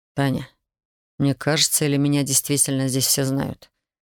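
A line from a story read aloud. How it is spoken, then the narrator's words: Quiet question. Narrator (Russian): Тихо поинтересовался Александр у Татьяны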